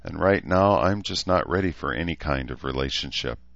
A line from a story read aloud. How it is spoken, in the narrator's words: said, frowning sadly